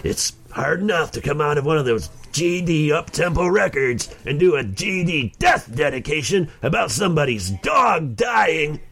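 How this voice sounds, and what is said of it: Imitates another person's voice. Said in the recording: “That's actually not a bad Casey Kasem impersonation.”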